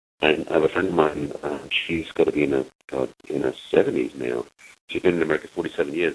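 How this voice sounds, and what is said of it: English accent. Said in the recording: “you don't have an American accent. You have a lovely accent. ... I'm English”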